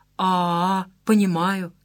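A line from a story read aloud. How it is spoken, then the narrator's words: Sympathetic drawl. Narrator (Russian): сочувственно протянула Шура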